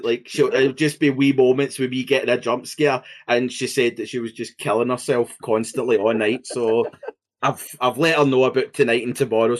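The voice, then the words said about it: Scottish accent. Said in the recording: “your accent makes it like really funny ... a Scottish guy go ah!”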